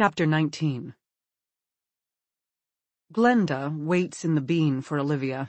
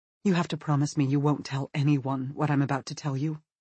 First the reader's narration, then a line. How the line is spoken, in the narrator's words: Olivia says nervously